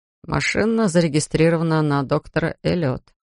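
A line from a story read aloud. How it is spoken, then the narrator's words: Sad. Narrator (Russian): Флойд ... печально добавил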